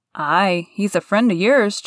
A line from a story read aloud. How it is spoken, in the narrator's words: chuckled Dickon